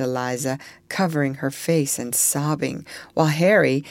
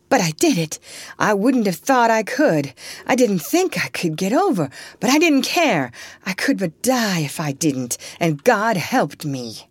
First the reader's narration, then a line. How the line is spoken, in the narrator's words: said Eliza wildly